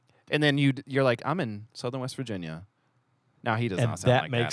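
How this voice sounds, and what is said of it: Usual voice. Nothing is said of it.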